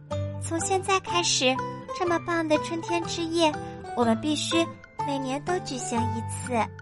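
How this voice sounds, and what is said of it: Quiet sleepy mumble. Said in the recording (Chinese): “小声的嘟囔着，她听起来快睡着了”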